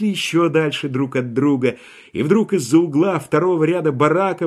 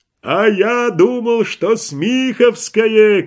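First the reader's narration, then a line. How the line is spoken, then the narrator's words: Distant shout. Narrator (Russian): кричал издали сапер-водичка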